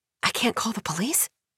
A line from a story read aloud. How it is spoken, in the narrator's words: Edie whispers